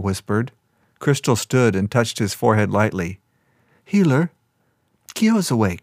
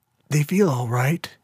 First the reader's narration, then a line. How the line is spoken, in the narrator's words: he whispered